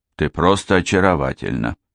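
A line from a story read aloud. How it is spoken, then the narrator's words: Soft. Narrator (Russian): негромко сказал Алан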